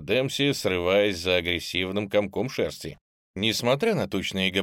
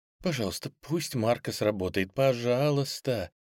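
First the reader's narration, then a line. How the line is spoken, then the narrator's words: Quiet tearful pleading. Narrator (Russian): Тихо взмолилась она, уповая на новогоднее чудо и роняя слезы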